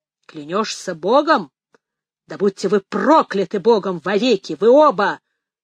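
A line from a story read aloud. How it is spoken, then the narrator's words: Thundering, furious. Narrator (Russian): прогремел отец Ральф, единственный, в ком теперь кипел гнев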